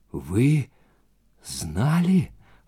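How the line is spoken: Whisper. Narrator (Russian): прошептал

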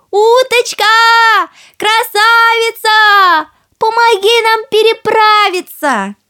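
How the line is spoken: Calling out. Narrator (Russian): крикнула уточке

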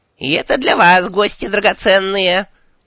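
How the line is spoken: Shrill pushy old woman. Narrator (Russian): визгливый напористый голос пожилой цыганки

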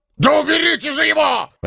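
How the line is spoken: Barked. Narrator (Russian): рявкнул Карвер на сотоварищей

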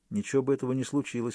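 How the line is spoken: Plain. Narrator (Russian): ответил я

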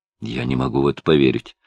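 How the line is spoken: Muttered. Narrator (Russian): пробормотал Хелстон

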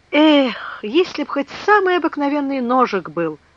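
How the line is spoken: Sailor sighing. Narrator (Russian): вздохнул моряк

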